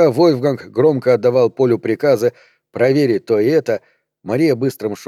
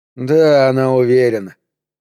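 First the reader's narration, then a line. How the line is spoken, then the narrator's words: Gloomy. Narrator (Russian): мрачно сказал Поль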